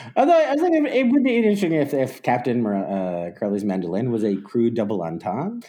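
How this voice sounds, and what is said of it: Usual voice. Nothing is said of it.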